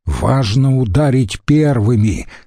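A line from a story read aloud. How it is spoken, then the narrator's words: Plain. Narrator (Russian): сказал Катон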